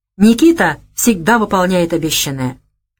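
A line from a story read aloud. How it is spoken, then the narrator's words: Solemn male voice. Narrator (Russian): торжественно произнес он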